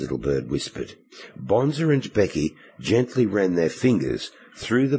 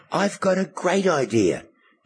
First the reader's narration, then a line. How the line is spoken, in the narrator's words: Becky cried